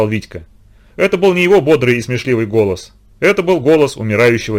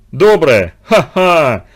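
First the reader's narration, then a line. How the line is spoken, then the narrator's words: Laughing. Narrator (Russian): засмеялся Спартак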